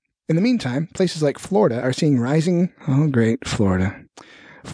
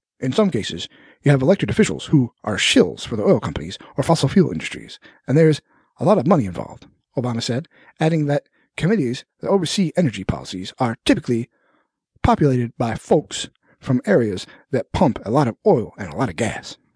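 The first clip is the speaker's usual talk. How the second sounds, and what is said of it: Awful Barack Obama impression. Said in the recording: “My awful Obama impersonation.”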